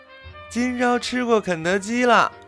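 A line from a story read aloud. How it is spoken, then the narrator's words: Excited shouting. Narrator (Chinese): 我还沉浸在巨大的兴奋中，见人就嚷嚷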